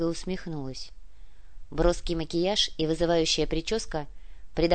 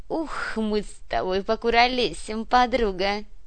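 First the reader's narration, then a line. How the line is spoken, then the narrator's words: Giggling. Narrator (Russian): хихикнула Людмила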